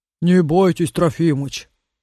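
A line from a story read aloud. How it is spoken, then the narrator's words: Deep bass, coachman. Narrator (Russian): пробасил извозчик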